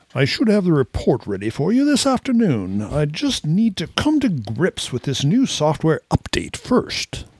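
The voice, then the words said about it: Put-on British accent. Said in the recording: “Best British accent. ... I thought it was great.”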